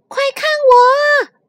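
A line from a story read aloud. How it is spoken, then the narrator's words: Shout. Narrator (Chinese): 迪伦喊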